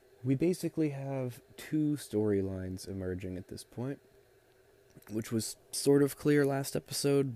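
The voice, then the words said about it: Strained, unwell-sounding voice. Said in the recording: “my voice is not doing great”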